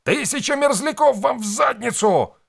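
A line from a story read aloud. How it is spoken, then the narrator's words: Yelled. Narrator (Russian): орал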